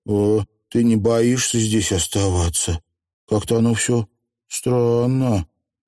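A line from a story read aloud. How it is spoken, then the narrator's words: Uncertain question. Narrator (Russian): она неуверенно спросила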